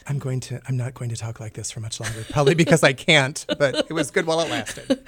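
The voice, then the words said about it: Low, deep dulcet radio voice. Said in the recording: “I feel like I have to use my low dulcet tones when I'm talking ... It's the NPR voice.”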